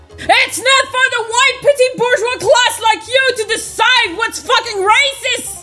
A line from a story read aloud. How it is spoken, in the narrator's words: I screeched at fucking Hermione